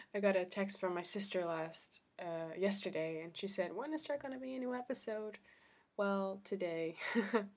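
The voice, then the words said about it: Deepened, congested-sounding voice. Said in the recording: “I had a cold. I still have a little bit of a cold. I don't know if you can hear. I still feel like I sound like a man ... my voice is not all that”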